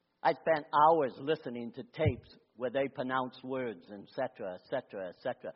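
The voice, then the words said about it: Speaks with a noticeable accent. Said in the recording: “you have an accent ... We love your accent. People pick up on your accent.”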